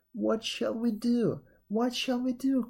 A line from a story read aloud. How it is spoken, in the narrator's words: cried the king and queen in one breath